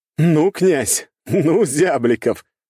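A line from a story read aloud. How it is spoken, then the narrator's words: Loud laughter. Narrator (Russian): расхохотался наследник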